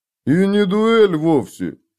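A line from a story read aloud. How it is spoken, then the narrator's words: Guard's low booming drone. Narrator (Russian): прогудел охранник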